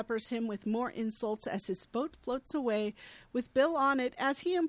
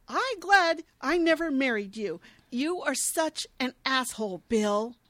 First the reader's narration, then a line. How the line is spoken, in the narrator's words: She is pissed, as Tamara and I are, and yells